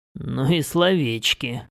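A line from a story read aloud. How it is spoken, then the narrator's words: Snorting. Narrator (Russian): хмыкнул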